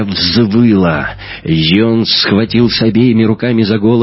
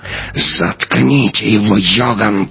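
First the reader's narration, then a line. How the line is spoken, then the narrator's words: Hissed. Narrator (Russian): прошипела она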